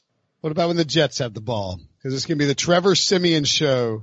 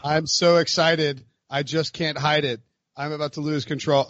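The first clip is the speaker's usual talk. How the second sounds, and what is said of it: Flat monotone delivery. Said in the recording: “That was meant to be monotone.”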